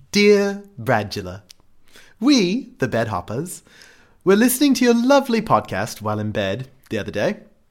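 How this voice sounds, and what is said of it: Put-on exaggerated British accent. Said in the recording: “I'm going to try to do it in my best British accent. I'm going to sound like Mike Myers doing Austin Powers”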